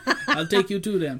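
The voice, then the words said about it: Awkward put-on character accent. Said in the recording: “Don't do the accent. It sounds weird. ... He sounded better than that.”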